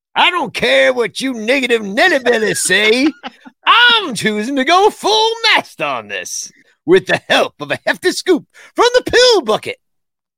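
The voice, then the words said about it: Put-on old man voice. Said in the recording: “You needed to say that in a different accent ... Maybe more old manish.”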